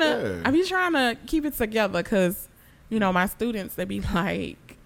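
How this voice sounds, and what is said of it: Usual voice. Nothing is said of it.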